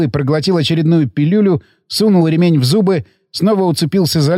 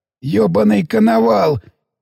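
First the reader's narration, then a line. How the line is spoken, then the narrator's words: Dying whisper. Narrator (Russian): предсмертным шепотом вымолвил пациент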